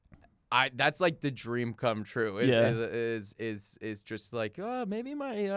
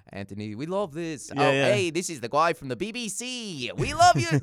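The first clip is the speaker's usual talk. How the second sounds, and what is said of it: Put-on BBC announcer voice. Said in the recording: “the guy who does the BBC voice”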